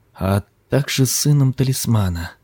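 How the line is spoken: Barely audible. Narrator (Russian): едва слышно проговорил Ким

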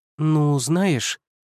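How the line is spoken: Uncertain objection. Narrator (Russian): возразила Иван неуверенно

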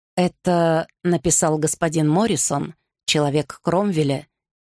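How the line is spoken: Quiet. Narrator (Russian): тихо сказал Гарри Анне

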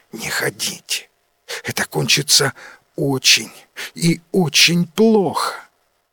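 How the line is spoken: Whisper. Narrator (Russian): Варна шепотом сказала

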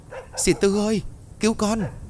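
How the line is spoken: Frightened cry. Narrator (Vietnamese): Hiền sợ hãi ... kêu lên

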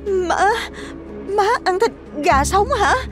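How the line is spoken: Trembling voice. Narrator (Vietnamese): cô ta cất giọng run run nói

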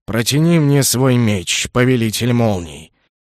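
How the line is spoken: Cheerful snort. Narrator (Russian): хмыкнул повеселевший Гром

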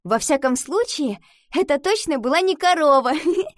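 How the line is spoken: Answering, then laughing. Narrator (Russian): ответила она и рассмеялась

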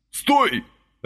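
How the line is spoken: Barked. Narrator (Russian): рявкнул Василий

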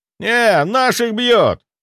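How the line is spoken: Shouted out. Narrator (Russian): выкрикнул кто-то

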